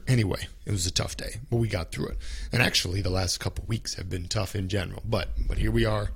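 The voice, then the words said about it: Rough, strained sick voice. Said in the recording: “sore throat is the main thing I have today... my voice is terrible right now... even when our voice doesn't work... I apologize for my voice”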